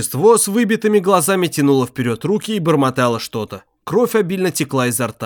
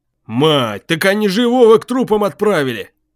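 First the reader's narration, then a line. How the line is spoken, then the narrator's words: Deep-voiced, surprised. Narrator (Russian): Уже с удивлением пробасил Бочкин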